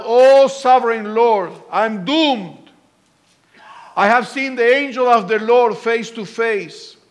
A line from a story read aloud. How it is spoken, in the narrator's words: he cried out